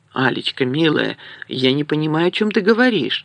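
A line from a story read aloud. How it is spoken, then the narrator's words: Almost sincere pleading. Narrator (Russian): взмолился почти искренне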